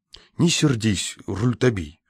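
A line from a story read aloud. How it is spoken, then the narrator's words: Conciliatory. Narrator (Russian): молвил Лакандер примирительным тоном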